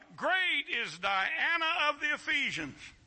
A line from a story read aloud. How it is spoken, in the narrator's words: They were full of wrath and cried out